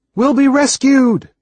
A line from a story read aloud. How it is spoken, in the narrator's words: I shouted at Stewcat